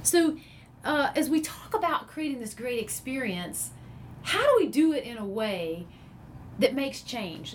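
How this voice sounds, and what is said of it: Southern American accent. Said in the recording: “we're Southerners ... If you couldn't tell by the accent. ... I'm clearly not from New Jersey.”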